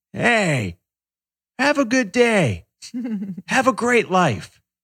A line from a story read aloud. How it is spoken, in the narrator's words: this old man yells